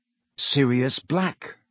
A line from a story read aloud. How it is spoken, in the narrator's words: Harry said wearily